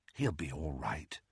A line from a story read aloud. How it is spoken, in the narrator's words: murmured Ginny